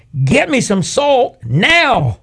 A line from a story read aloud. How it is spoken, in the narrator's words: So I yelled again